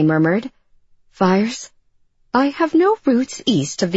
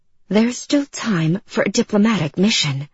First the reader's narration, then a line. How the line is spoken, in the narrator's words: she murmured back